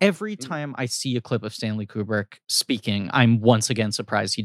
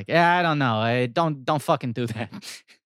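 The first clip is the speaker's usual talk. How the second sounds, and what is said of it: Impression with a Bronx accent. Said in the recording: “he doesn't have a British accent ... I know he's from the Bronx ... That's my Stanley Kubrick impression.”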